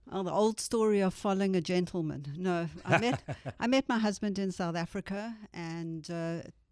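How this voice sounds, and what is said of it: South African accent. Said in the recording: “by your accent ... you are from South Africa originally”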